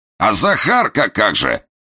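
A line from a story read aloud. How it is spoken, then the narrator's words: Shout from behind door. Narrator (Russian): крикнул Бурылин уже из-за двери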